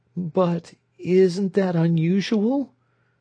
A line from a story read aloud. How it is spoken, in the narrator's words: she inquired in a tremulous voice